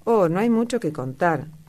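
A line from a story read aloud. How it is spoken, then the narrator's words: Exclaimed. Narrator (Spanish): exclamó Dorian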